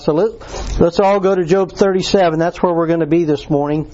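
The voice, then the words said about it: Sore-throated, slightly impaired speech. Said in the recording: “my voice is just a little funny ... made my throat really sore, and I got sores on my tongue, so I don't speak very well ... I feel like my tongue is swollen up”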